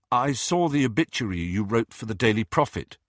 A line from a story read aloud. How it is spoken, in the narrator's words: said Harry